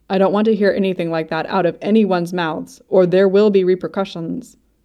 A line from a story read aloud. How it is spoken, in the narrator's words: Bobby says firmly